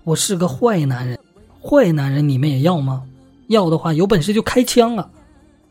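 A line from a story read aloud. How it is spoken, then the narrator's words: Confused, loud shout. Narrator (Chinese): 夹在中间的马光深搞不懂了，大声喊道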